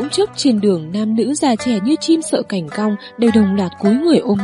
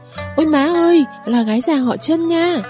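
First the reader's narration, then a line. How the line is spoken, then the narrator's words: Panicked shrill scream. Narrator (Vietnamese): hắn vừa hoảng sợ hét chói tai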